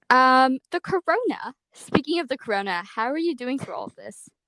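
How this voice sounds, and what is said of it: Poorly done put-on accent. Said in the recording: “Your accent was so bad. Why did you say it like that?”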